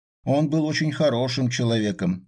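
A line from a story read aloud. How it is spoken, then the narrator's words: Loud confirmation. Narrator (Russian): громко подтвердила Полина Яковлевна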